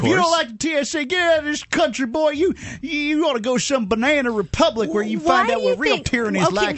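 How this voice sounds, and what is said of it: Put-on Southern hick accent. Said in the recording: “put on that accent as though, you know, Southerners or hickish kind of people ... It's just an accent ... I'm using character voices”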